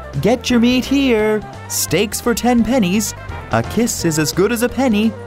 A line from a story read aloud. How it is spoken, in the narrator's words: He called out